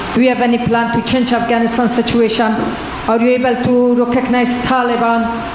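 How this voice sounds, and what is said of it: Heavy Afghan-accented English. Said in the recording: “it's a beautiful voice and a beautiful accent. The only problem is I can't understand a word you're saying.”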